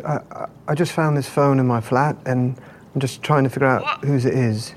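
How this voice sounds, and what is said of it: Speaks in a put-on accent. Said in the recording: “What is with this accent? ... Oscar Isaac's accent has been a subject of a lot of debate. Some people think it's very accurate.”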